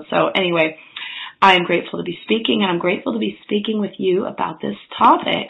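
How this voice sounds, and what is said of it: Husky, hoarse voice. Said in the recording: “I'm not trying to have like a sexy voice or anything today. I'm just actually getting over a cold, and I lost my voice”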